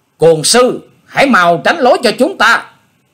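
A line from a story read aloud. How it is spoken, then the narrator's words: Shout from horseback. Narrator (Vietnamese): một cao thủ của Dương Gia Trang thúc ngựa tới hét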